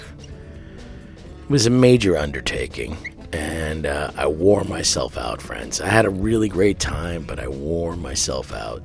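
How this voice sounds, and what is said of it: Very hoarse, gravelly voice. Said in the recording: “laryngitis. One of the worst cases of laryngitis ... I sound like Tom Waits”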